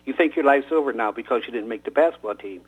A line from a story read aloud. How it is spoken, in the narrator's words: Scotty says